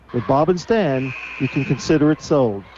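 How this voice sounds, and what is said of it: Theatrical radio announcer voice. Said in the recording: “That's my radio voice... your theatrical read... kind of like James Earl Jones, Morgan Freeman kind of thing... Legendary and in a southern style”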